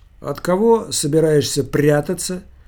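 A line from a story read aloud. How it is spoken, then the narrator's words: Bored question. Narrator (Russian): скучающим голосом спросил профессор-психиатр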